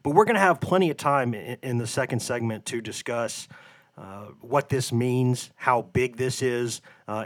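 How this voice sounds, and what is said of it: Hoarse, off-sounding sick voice. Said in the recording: “my voice is a little bit a little bit out of whack uh, today. ... a little bit of, a, of an upper respiratory infection. But my voice is a little bit off today”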